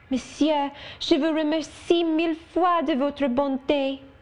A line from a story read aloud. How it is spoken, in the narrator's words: exclaiming